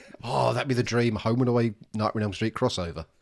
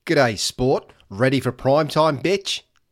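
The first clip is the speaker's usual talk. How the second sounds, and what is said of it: Put-on Australian accent. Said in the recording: “Why the Australian accent? ... That was my Freddy Krueger accent.”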